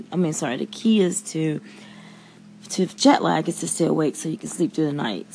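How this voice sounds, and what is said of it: Scratchy, tired voice. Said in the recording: “my voice is a bit scratchy because I'm still tired”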